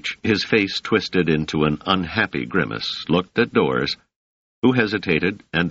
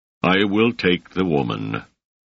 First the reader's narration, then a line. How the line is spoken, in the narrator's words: the sergeant said in a beaten voice